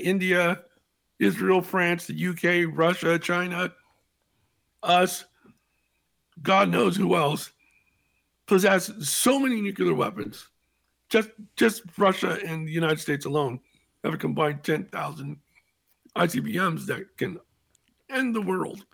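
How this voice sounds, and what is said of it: Heavy breathing, strained rough voice. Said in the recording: “I'm breathing heavily and my voice is a little bit tough”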